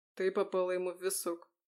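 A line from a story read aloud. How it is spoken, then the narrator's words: Muffled explanation. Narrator (Russian): глухо пояснил Фео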